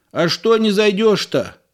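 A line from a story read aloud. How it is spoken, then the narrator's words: Shout from porch. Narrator (Russian): крикнул Егору с крыльца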